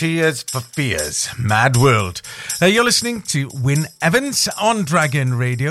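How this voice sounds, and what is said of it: Usual voice. Nothing is said of it.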